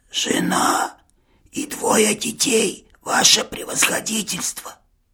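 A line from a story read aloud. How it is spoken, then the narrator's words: Hissed, teacher. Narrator (Russian): прошипел учитель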